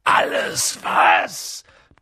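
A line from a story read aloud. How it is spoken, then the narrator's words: Booming. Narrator (German): donnerte Hagrid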